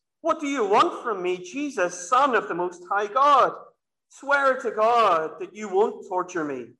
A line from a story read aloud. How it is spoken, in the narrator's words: He shouted at the top of his voice